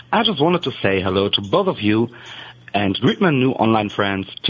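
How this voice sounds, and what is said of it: Cute foreign accent. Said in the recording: “Doesn't he sound cute? ... that's a very cute accent”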